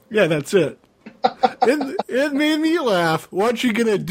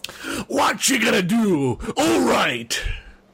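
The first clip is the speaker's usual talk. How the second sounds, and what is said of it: Macho wrestler impression voice. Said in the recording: “my Hulk Hogan impersonation, which might sound like a macho impersonation”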